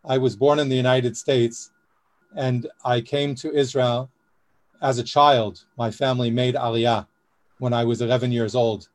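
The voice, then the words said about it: American English with Israeli accent. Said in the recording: “I speak an American English with an Israeli accent”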